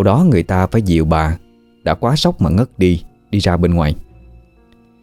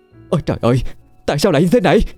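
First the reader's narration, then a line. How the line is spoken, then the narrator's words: Screamed. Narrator (Vietnamese): tiếng bà thét lên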